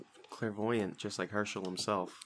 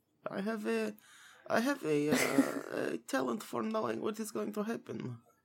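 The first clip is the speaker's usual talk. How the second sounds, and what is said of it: Put-on character accent. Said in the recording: “That was a good one. That was a good accent.”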